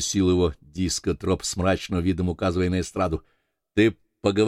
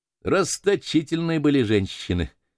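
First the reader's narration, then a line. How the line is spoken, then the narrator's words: Laughing. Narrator (Russian): засмеялся Дэн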